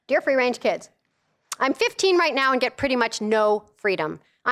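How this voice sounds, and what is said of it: Reading very fast. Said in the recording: “I'm gonna read it really fast.”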